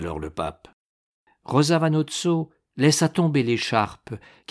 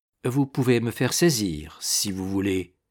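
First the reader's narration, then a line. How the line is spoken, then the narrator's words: Cold. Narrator (French): dit froidement Rosa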